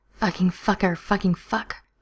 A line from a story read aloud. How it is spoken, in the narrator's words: Stiles groans, murmuring out something that sounds like